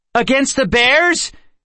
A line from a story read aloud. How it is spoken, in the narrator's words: Kendra shouted